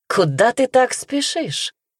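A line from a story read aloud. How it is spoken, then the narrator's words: Cheerful question. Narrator (Russian): весело спросил он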